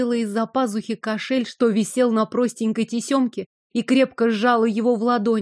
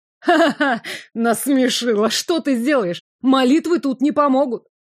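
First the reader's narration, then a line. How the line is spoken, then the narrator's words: Mocking laughter. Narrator (Russian): Глумливо расхохотался маг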